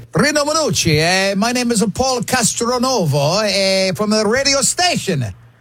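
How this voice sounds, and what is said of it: Cheesy put-on Italian accent. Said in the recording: “cheesy Italian accent”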